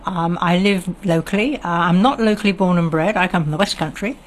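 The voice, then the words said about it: Standard BBC-style English accent. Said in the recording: “You don't have an Oire twang. ... I've got a frightful BBC accent”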